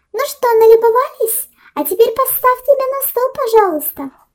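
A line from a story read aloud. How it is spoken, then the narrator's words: Small girl's squeak. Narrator (Russian): Миниатюрная девушка пропищала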